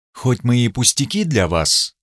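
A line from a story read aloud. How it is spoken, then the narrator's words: Quiet, slightly sarcastic reply. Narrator (Russian): ответила она тихо, но с язвинкой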